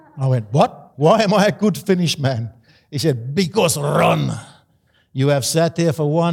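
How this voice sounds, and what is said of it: Usual voice. Nothing is said of it.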